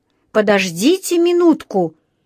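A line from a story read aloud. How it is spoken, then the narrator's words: Panicked exclamation. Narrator (Russian): воскликнул инспектор, явно впадая в панику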